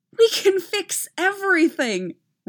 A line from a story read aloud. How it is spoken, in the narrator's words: Rey exclaimed